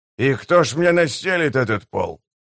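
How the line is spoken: Perfunctory grumble. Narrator (Russian): для порядка проворчал он

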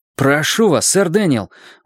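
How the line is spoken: Exclaiming. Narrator (Russian): воскликнул он

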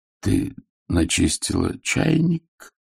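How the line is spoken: Dull muffled voice. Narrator (Russian): глухо произнес Сэм

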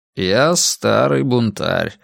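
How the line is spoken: Tired correction. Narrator (Russian): устало поправил Рекс

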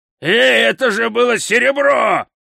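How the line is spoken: Yelling. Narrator (Russian): завопил Хрун

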